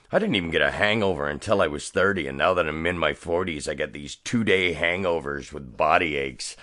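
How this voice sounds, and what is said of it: Rougher, slightly hoarse voice. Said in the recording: “my voice is a little rougher than usual”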